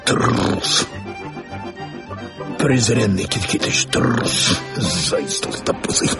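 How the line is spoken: Indignant muttering. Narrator (Russian): бормотал в негодовании

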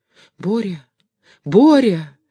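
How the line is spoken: Frightened mother's cry. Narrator (Russian): испуганным голосом воскликнула мать

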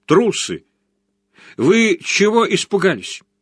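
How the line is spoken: Shout. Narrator (Russian): крикнул оркестру

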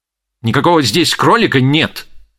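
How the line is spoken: Angry interruption. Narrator (Russian): сердито прервал ее миссер Никола

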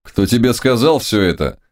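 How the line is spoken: Mocking question. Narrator (Russian): спросил Самуил все так же насмешливо

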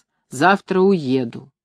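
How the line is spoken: Low droning voice. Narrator (Russian): в комнате матери прогудел ее голос

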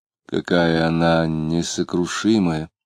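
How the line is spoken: Quiet. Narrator (Russian): тихо сказала Лидия

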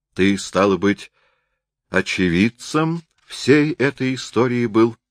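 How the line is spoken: Plain. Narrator (Russian): спросил Воинов

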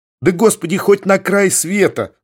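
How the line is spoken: Laughing. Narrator (Russian): засмеялся дьякон

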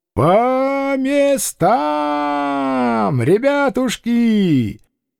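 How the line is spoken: Ringing shout. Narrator (Russian): звонко крикнул

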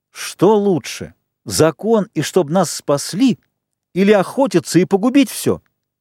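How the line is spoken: Yelling. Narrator (Russian): Джек уже тоже вопил

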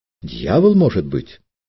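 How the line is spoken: Exclamation. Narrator (Russian): воскликнул Петр

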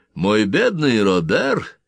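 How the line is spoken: Cheerful, unirritated. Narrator (Russian): говорил он весело, не раздражаясь

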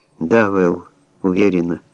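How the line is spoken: Weak voice. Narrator (Russian): ответила она слабым голосом

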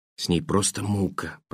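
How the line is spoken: Whispered. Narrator (Russian): прошептала она

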